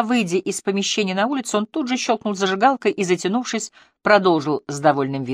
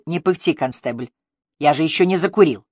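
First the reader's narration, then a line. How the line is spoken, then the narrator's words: Grumbling. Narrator (Russian): проворчав Мотту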